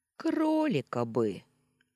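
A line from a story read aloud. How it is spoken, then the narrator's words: Dreamy sigh. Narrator (Russian): мечтательно вздохнул Вальдемар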